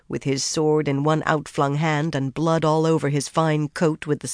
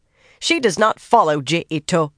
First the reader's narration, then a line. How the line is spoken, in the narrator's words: Bane barked